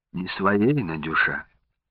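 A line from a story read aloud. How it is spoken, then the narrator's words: Whispered excuse. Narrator (Russian): шепотом оправдывался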